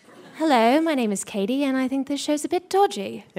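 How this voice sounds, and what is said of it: Put-on British accent. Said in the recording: “I can do a British one ... Yeah, I like it. I like it. Very good.”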